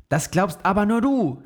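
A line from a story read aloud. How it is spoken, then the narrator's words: Shouting. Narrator (German): schrie Max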